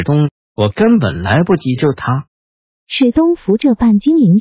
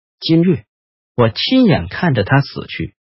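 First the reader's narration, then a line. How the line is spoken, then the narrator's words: Softly. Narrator (Chinese): 坦尼斯轻声的说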